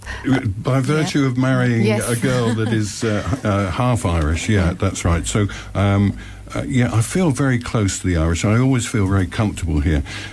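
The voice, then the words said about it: English accent. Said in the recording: “have an English accent and you hail from Hertfordshire in England”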